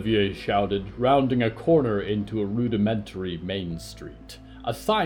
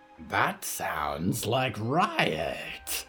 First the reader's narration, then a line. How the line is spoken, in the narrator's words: the monster croaked